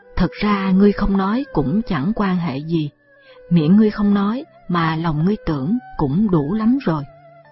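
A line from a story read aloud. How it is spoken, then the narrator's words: Smiling. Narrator (Vietnamese): Đinh Văn Lâm mỉm cười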